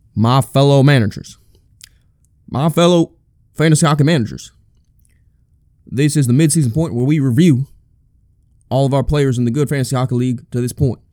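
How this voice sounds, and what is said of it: Mock American presidential speech voice. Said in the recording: “that's not really a good American president impression”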